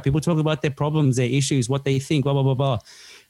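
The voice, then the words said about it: Talking very fast. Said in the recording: “I'm talking really fast”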